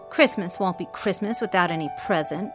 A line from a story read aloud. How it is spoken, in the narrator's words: grumbled Joe